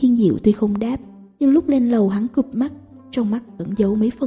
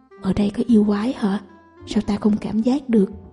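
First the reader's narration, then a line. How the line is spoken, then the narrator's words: Near whisper. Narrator (Vietnamese): dùng giọng điệu như thì thầm nói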